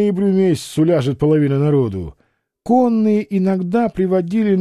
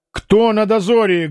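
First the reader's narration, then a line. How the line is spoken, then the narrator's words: Barking shout. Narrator (Russian): гаркнул Алексей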